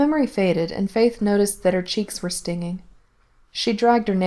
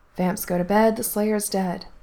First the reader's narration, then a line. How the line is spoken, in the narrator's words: muttered Faith